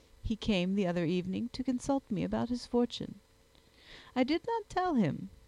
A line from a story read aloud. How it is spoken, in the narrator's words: she added with a laugh